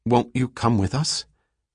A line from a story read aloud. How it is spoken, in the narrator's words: Selden had asked anxiously